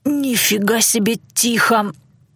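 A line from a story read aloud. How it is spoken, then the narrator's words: Wheezing. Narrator (Russian): просипел кто-то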